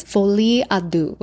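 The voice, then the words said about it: Exaggerated French accent. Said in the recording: “that's like my best French accent.”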